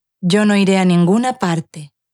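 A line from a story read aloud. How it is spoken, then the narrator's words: Tired old woman's voice. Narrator (Spanish): respondió la anciana con voz cansada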